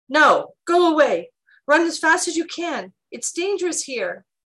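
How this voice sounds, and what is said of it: Trembling, frightened voice. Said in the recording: “Your voice is trembling. Why are you so frightened?”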